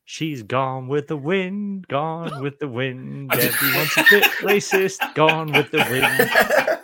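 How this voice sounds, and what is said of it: Sung in a put-on accent. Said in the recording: “Was that accent? ... it certainly was”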